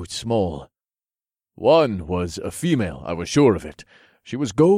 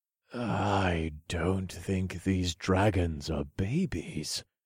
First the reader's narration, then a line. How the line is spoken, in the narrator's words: I whispered